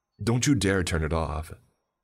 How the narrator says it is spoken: snapped with a dark scowl

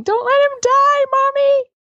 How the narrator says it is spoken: kids screaming

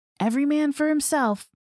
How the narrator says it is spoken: Gary screamed

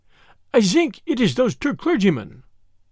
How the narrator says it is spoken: he stuttered eagerly

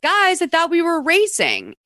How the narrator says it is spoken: she yells

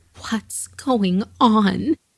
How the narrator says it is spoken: she begged to know

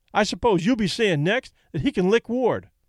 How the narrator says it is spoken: Kelly snapped

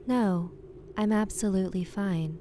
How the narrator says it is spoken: said very calmly

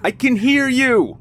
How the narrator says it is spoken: he yelled into the woods

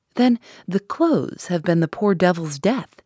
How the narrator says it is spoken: said he

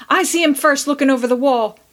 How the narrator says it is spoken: roared Seth, eager to get his share of honor

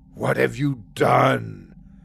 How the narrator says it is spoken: Asu said in a low growl

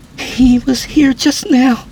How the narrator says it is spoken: she said nervously

